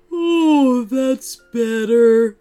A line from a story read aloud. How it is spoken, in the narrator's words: said with a big sigh